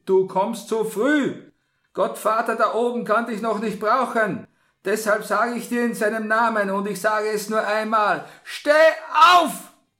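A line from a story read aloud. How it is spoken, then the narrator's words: Sharp call. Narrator (German): rief der Pater in scharfem Ton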